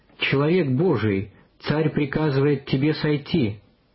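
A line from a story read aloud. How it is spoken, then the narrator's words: Commander's proud shout. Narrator (Russian): Начальник отряда гордо крикнул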